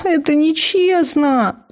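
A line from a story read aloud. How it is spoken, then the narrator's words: Wailing howl. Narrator (Russian): взвыла я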